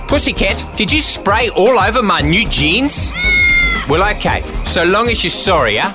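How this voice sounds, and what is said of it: Bad South African accent. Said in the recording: “English with a South African accent. A bad one.”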